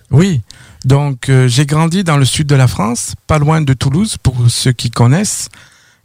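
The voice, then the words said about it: Slight French accent. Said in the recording (French): “vous avez un petit accent, vous provenez de la France?”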